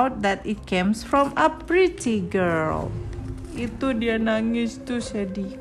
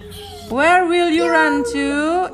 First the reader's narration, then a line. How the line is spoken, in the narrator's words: It shouted to Wang Kurorio